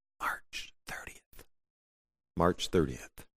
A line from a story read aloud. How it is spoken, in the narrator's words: Furtively, he whispered